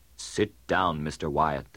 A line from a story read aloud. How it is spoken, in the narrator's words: said sternly